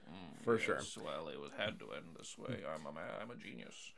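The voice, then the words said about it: Imitated character voice. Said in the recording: “I love your John impersonation. He just sounds like Orson Welles.”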